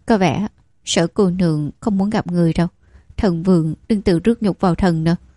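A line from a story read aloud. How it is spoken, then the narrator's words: Soft laughing. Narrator (Vietnamese): Bắc Thành cười khẽ nói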